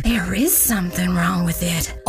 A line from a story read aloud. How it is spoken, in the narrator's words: others whispered back